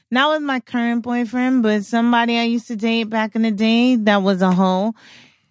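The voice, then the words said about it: New York accent. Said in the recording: “I love your New York accent.”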